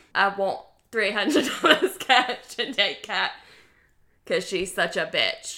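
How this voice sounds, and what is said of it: Weak Australian accent sounding British. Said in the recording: “your Heath Ledger Australian accent wasn't that good ... It sounded more British ... Do a Heath Ledger impression ... Yeah, it definitely is British.”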